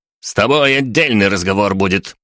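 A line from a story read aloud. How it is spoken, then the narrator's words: Lanky man shouting sharply. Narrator (Russian): прикрикнул на него долговязый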